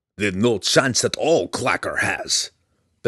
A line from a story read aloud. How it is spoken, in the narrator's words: Belwar roared